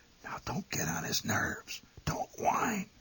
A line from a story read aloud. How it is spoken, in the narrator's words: My mother, realizing by this time that it hadn't been a pebble after all, whispered